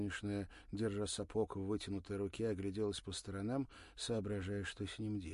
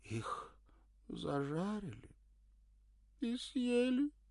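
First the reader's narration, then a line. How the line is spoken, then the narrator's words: Sobbing. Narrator (Russian): всхлипнула она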